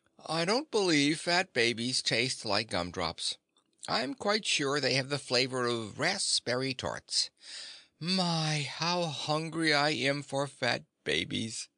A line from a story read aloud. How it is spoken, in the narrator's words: the tiger said sleepily